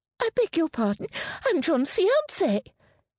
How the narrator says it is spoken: Amelia's voice squeaked with indignation

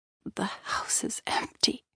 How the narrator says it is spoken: she croaked

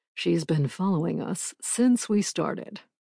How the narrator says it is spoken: Drake said in a low voice

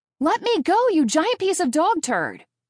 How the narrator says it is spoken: I scream

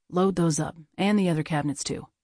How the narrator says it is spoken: JT said

